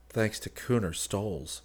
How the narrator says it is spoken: Rick murmured

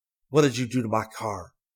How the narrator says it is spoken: fiercely and said

